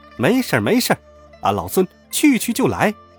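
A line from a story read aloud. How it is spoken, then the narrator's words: Laughing. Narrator (Chinese): 孙悟空笑道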